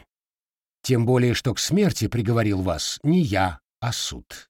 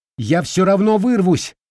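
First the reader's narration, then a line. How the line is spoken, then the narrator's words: Desperate shout. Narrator (Russian): в отчаянии выкрикнула она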